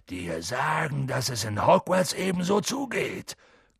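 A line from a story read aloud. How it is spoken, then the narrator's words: Growling. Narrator (German): knurrte Hagrid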